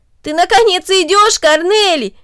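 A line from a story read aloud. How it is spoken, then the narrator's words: Exclaiming. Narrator (Russian): воскликнул Дино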